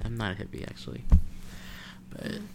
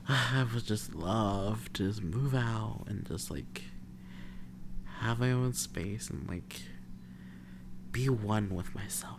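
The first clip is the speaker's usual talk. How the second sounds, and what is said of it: Laid-back hippie-style voice. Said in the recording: “Why do you sound like that? You sound like a hippie.”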